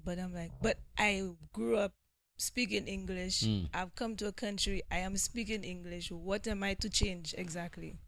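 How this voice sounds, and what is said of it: St. Lucian English accent. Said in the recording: “Love the accent ... I do love the accent ... I call it by the beach in St. Lucia”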